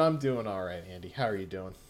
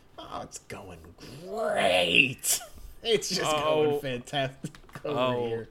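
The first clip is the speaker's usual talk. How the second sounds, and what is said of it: Distorted cartoon tiger voice impression. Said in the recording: “Was that your Tony the Tiger impression? ... Yeah, that was Tony the Tiger, like, being turned inside out.”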